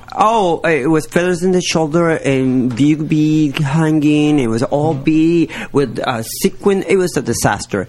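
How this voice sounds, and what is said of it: Accented English. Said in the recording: “I know I have an accent”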